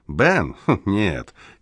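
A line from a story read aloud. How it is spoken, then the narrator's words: Laughing. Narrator (Russian): Кеслер рассмеялся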